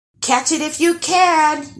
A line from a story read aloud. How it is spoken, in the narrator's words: yelled Eric